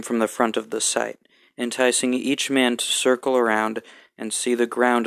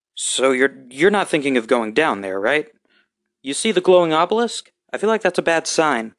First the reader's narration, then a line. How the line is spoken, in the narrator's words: Stan's tongue could no longer be held, and so he blurted